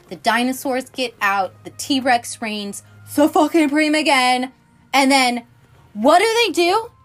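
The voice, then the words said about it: Yelling, loud excited voice. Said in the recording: “Sorry, I'm yelling.”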